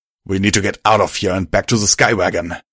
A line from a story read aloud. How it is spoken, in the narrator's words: Steeljack growled